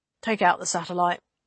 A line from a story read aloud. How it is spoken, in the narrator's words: she decided at last, quietly